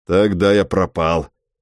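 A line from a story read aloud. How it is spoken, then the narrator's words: Resolute and grim. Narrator (Russian): решительно и мрачно заявил черт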